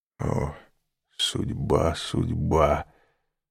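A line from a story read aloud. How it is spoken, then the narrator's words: Whispering abbot. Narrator (Russian): прошептал аббат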